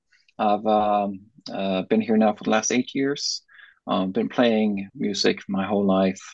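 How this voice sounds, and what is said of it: Norwegian accent in English. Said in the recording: “originally Norwegian, that's where the accent comes from”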